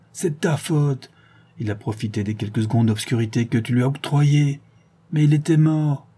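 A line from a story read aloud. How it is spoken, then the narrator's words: Pitiful moan. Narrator (French): gémit Béchou, piteusement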